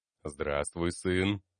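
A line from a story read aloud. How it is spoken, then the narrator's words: Deep bass voice. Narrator (Russian): пробасил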